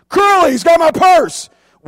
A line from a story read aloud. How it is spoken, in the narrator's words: she screamed